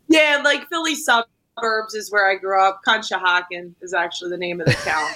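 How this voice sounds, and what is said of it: Philadelphia accent. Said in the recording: “if you can't tell by the accent, is not from here specifically... It's not Baltimore... It's not West Virginia either... It's Philly... It's very Philly.”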